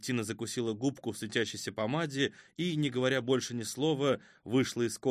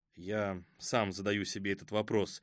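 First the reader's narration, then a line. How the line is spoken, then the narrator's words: Worried grumbling mutter. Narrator (Russian): пробурчал Хасид, в самом деле встревоженный появлением ранней гости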